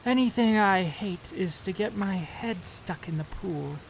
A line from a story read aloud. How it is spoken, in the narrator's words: mumbled Miss Bedecker